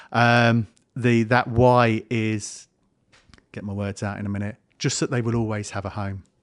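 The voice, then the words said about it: Emotional, choked-up voice. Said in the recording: “getting emotional.”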